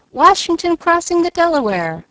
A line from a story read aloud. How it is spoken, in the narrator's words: with one voice the audience cried